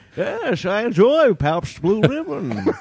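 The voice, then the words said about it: Bane impression, like Mr. Howell. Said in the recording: “Can you do that in your Bane voice? does a great Bane impersonation. ... I think it sounds almost more like Mr. Howell from Gilligan's Island.”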